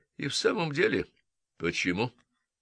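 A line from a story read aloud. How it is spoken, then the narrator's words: Grim smirk. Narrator (Russian): мрачно усмехнулся Мейсон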